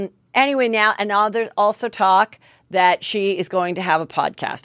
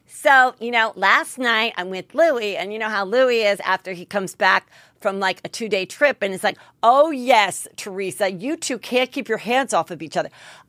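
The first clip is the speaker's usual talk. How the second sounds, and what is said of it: Imitation of Teresa Giudice. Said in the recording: “I don't do a great Teresa impression. I'm not going to act like I do.”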